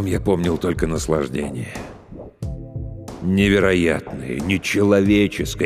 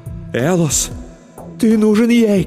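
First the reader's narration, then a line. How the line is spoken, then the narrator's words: Shouting. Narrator (Russian): кричала моя любовь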